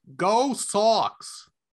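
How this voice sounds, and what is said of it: Attempted Boston accent. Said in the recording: “my best uh, accent uh, from Beantown ... Not bad ... not quite. Not quite.”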